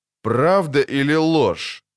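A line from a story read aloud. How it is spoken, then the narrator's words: Cold repetition. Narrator (Russian): холодно повторил Риенс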